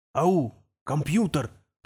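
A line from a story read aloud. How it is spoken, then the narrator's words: Male whisper. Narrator (Russian): прошептал он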